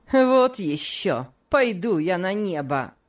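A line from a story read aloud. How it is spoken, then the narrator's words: Plain, woman. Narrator (Russian): сказала женщина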